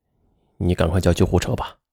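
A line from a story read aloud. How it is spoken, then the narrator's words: Flat, calm. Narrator (Chinese): 他只是淡淡的对着妻子说了一句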